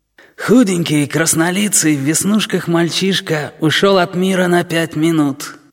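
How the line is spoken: Husky tenor. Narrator (Russian): сообщает нам стервятник хрипловатым тенором

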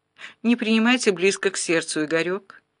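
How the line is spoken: Calm, suppressed rage. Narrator (Russian): сдерживая бешенство, спокойно ответила мадам

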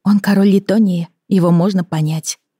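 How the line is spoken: Sighing. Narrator (Russian): вздохнула Эми

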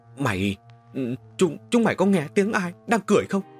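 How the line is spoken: Frightened stammering group. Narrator (Vietnamese): Cả đám chân run như cầy giấy, lắp bắp nói

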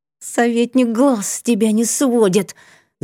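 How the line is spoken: Hissing in ear. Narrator (Russian): зашипела на ухо Фиса

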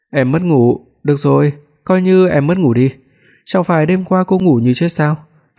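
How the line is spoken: Laughing. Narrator (Vietnamese): Hoắc Phi Đoạt bật cười

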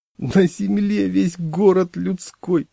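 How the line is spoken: Sobbing. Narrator (Russian): зарыдал я

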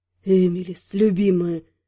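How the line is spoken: Thrilling husky voice. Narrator (Russian): В голосе появилась крайне волнующая хрипотца

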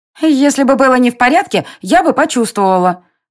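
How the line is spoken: Squeaky voice. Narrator (Russian): пропищала Тинь

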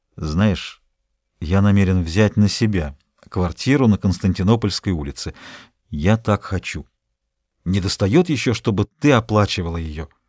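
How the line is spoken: Embarrassed mumble. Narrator (Russian): Потом пробормотал, слегка смущенный

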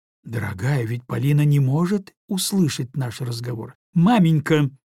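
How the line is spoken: Countess interrupting, meaningful tone. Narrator (Russian): прервала ее графиня таким многозначительным тоном

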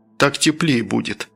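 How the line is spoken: Embarrassed mutter. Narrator (Russian): Вся красная как рак, буркнув

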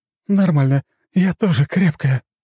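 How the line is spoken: Declaring, then exhaling. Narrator (Russian): заявила та и выдохнула

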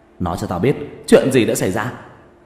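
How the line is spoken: Flustered shout. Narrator (Vietnamese): vẻ mặt mờ mịt luống cuống, hét lớn

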